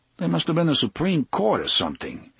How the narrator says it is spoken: Eddie said, uneasily

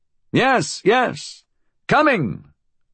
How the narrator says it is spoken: Fool called out irritatedly

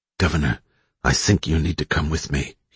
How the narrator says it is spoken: he said in a low voice

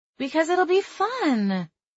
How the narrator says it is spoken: she whined

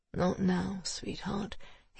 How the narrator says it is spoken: he muttered

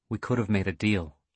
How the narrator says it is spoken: he said quietly

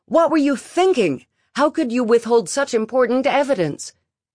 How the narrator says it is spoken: Juno yelled at her

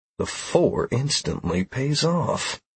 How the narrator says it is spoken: I whispered to myself

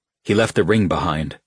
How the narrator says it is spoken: Rowan said

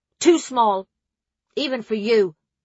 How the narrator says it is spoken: Gina barked

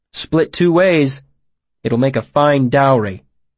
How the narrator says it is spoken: I said firmly

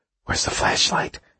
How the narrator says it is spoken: Smithback whispered

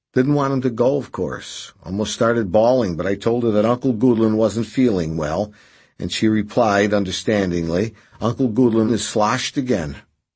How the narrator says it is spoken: Redvick chuckled

